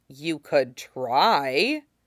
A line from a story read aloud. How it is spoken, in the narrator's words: aloud, he says, in his most doubtful voice